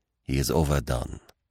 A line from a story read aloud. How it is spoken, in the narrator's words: murmured Poirot